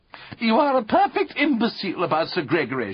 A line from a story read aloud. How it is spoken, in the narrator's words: cried